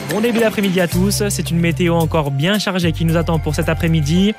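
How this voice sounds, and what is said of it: Southern French accent. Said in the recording (French): “le petit accent du sud”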